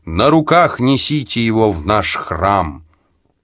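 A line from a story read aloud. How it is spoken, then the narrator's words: Commanding voice. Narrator (Russian): Рея властным голосом приказала своим приближенным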